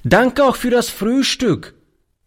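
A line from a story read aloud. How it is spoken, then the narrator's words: Called out while leaving. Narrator (German): rief beim Hinausgehen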